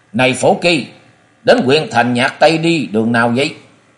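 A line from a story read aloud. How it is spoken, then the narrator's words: Loud, rough voice. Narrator (Vietnamese): một giọng sóng sượt lớn tiếng nói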